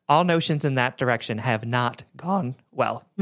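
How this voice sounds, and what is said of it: Voice cracks mid-sentence. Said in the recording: “my voice just cracked like a pubescent boy”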